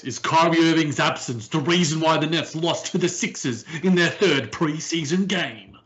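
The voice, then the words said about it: Imitates a sports debate show host. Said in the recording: “in my best first take voice”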